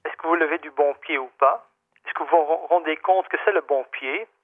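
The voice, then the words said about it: Slight Dutch accent in French. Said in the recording (French): “vous avez un petit accent parce que vous êtes d'origine néerlandaise”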